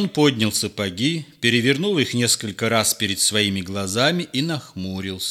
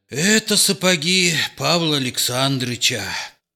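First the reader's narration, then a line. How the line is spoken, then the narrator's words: Grumbling. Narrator (Russian): проворчал он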